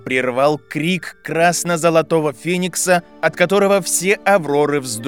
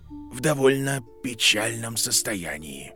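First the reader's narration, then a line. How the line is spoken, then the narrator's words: Quiet concluding. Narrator (Russian): тихо закончил Дамблдор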